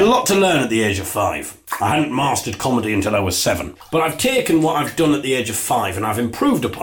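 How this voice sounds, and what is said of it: Usual voice. Nothing is said of it.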